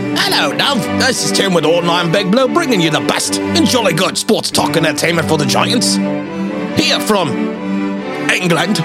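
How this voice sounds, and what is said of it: Bad put-on English accent. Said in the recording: “that is probably the worst English accents besides Dom's that you'll ever hear”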